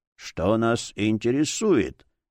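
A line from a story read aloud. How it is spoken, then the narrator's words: Muffled old voice. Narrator (Russian): глухо ответил старческий голос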